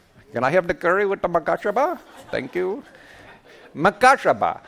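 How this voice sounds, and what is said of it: Put-on Indian accent. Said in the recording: “It helps if you say it with an Indian accent.”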